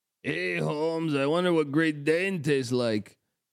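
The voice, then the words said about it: Imitates another person's voice. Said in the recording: “I think you got to work on your teach impression a little bit.”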